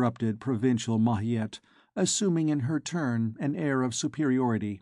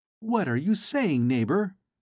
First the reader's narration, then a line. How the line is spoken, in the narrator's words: exclaimed Gervaise